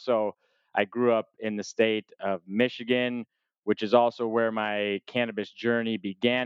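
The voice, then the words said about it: American accent. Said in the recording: “tell from my voice, I am not from Europe and I have an American accent”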